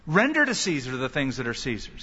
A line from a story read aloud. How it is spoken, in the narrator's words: said